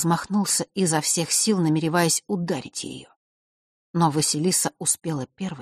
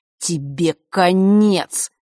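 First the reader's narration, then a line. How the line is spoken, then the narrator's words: Through gritted teeth. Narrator (Russian): процедил он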